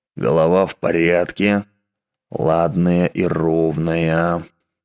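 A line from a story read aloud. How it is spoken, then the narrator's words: Muttering. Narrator (Russian): бормотал Дэг Доутри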